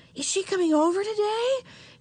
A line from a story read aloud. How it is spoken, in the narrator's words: She asked eagerly